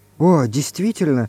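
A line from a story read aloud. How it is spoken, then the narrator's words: Relieved whisper, then laughter. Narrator (Russian): прошептала Галя с облегчением и рассмеялась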